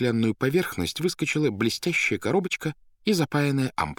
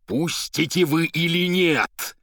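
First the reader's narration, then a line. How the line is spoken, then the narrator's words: Terrible shouting voice. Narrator (Russian): страшным голосом крикнул поэт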